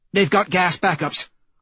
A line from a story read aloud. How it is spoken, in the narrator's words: Holiday barks